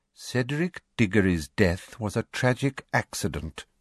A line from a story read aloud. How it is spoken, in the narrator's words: said coldly